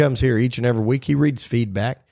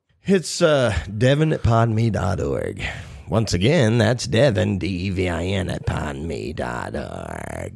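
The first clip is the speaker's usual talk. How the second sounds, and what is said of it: Radio announcer voice. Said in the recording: “It's my radio announcer voice.”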